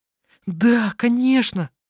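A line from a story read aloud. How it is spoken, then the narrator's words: Delighted exclamation. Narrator (Russian): воскликнула она восторженно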